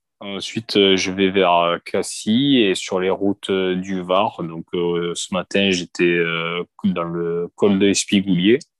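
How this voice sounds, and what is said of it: Slight mixed southern French accent. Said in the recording (French): “le petit accent du sud un peu mélangé sud-ouest-sud-est”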